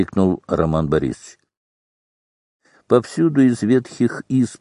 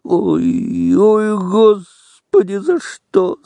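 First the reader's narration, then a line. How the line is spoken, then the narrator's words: Two voices groaning. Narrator (Russian): стонали Федька и Коська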